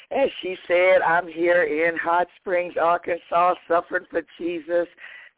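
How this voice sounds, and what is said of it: Slightly hoarse voice. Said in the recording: “Excuse me being a little hoarse this morning.”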